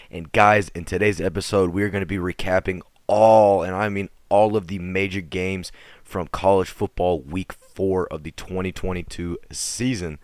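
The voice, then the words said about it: Very raspy, worn-out voice. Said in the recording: “My voice is going to be super raspy throughout this whole, and I mean, whole podcast due to the fact that I just got back from the TCU SMU game and I'm kind of shocked that I even have a voice at all”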